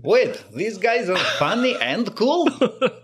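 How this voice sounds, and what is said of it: Bad put-on Russian accent. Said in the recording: “Sorry about the terrible Russian accent”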